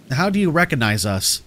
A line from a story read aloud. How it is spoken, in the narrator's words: I asked